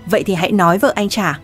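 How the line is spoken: Loud angry speech. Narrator (Vietnamese): Ngải Kiến Quốc tức giận nói lớn

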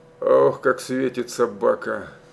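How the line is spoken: Mumbled. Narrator (Russian): пробормотал он

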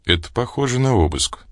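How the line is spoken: Calm. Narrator (Russian): спокойно сказал Ракитин

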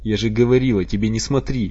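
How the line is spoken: Tearful shouting. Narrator (Russian): кричала она, размазывая по лицу слезы

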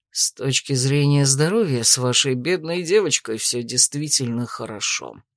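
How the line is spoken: Grumble. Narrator (Russian): буркнул Дрейк

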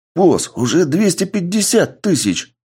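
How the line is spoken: Fighter's exclamation. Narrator (Russian): воскликнул один из бойцов

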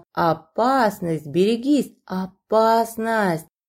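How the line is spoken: Growled in unison. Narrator (Russian): синхронно рычали одно

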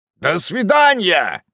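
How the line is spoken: Shouted. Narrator (Russian): крикнул

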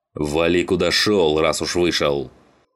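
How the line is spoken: Barked. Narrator (Russian): рявкнул на него Саныч

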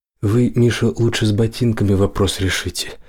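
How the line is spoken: Quiet, facing away. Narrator (Russian): не оборачиваясь, тихо сказал

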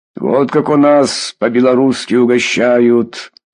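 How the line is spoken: Host laughing heartily. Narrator (Russian): хохотал хозяин

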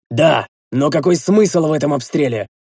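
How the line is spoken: Shouting back. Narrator (Russian): заорал я в ответ

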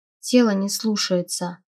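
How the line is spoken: Barely audible. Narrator (Russian): еле слышно произнесла я

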